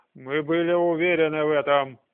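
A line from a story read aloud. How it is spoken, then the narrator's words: Growl. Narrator (Russian): прорычал Таниэль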